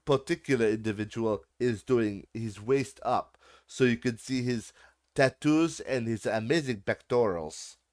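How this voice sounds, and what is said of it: Deliberately bad put-on accent. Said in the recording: “that was a horrible accent.”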